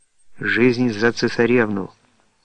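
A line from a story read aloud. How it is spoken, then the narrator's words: Young boy's firm voice. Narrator (Russian): произнес твердым голосом юный барабанщик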